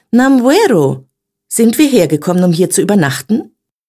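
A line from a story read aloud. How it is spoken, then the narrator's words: Called out. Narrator (German): rief sie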